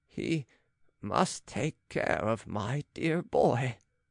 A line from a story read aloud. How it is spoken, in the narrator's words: said the old man